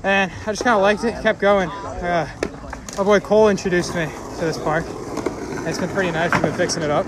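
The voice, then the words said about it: Out of breath. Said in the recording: “out of breath. I know you've been pushing hard.”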